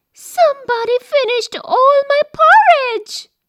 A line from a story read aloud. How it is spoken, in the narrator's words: said Baby Bear in his tiny little voice